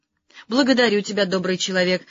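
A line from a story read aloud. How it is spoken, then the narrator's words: Fervent exclamation. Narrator (Russian): с жаром воскликнул одноглазый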